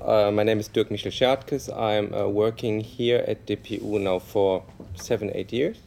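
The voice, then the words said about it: German accent speaking English. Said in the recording (Danish): “I'm academically socialized in social science sociology in Germany, as you easily can hear from my accent.”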